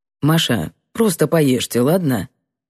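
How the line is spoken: Dry reply. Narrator (Russian): Сухо ответил

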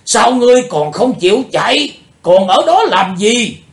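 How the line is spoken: Shouting. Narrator (Vietnamese): Tiếng hét

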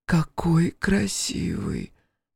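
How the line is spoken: Whisper. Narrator (Russian): прошептала Элли

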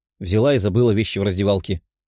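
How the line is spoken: Grumbled. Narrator (Russian): проворчала Даша

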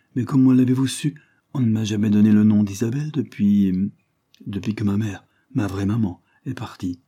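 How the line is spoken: Sad, lowered voice. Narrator (French): ajouta-t-elle tristement et en baissant la voix

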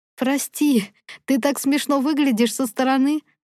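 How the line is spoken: Through laughter. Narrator (Russian): Сквозь смех

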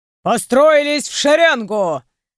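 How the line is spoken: Barked by big man. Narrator (Russian): рявкнул высокий, широкоплечий мужчина

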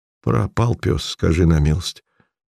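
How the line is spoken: Embarrassed mutter. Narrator (Russian): бормотал смущенно боец

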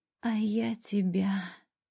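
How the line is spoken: Hoarse reply. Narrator (Russian): хрипло отвечаю

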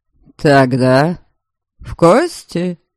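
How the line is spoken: Mocking question. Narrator (Russian): Насмешливо переспросил Дориан

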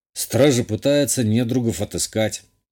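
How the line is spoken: Grumbled. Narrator (Russian): буркнул я

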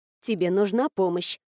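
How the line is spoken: Very quiet question, female friend. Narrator (Russian): совсем тихо спросила наконец подруга

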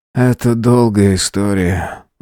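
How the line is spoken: Sighing. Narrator (Russian): вздохнул управляющий

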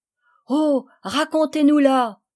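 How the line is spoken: Children crying out together. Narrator (French): s'écrièrent les enfants, tous ensemble

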